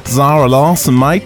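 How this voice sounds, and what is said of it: Put-on Australian accent. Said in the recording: “I want to say her name in like an Australian accent.”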